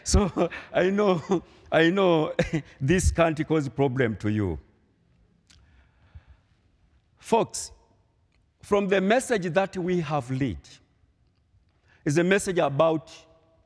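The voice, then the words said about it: Swahili-speaker accented English. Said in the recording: “my accent sometimes can challenge, be trouble to you ... I try to connect you from my vernacular language, then to my Swahili, then find a word to English”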